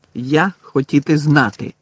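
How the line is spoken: Angry. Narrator (Ukrainian): сердито сказав

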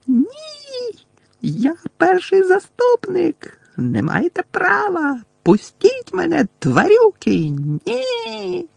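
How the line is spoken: Shrieking even louder. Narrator (Ukrainian): заверещала ще голосніше

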